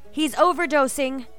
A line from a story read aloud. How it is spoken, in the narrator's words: a nurse yelled